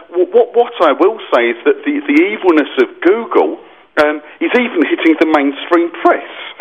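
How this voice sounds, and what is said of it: Standard English accent, not northern. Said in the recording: “with a proper accent rather than the northern one”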